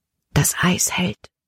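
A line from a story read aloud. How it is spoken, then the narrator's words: Whispered. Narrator (German): flüsterte Caleb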